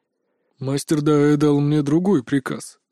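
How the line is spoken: Calm. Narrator (Russian): спокойно сообщил Эмиль

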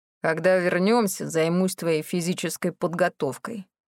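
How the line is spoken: Grumbling. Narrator (Russian): проворчал

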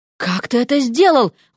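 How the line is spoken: Breathed out. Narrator (Russian): выдохнула Вася

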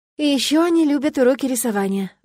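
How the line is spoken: Sighing. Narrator (Russian): вздохнула я

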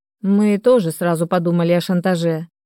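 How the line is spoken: Gloomy. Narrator (Russian): мрачно кивнул Денис

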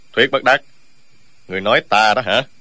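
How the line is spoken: Sudden cold interruption. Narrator (Vietnamese): Dương Tiêu đột nhiên lạnh lùng ngắt lời

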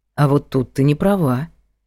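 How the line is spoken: Calm objection. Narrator (Russian): спокойно возразил Влад

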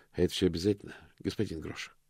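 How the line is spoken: Sighing creature. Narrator (Russian): вздохнул мокрец

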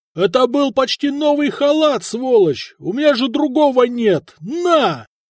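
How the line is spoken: Warrior yelling. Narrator (Russian): воин заорал

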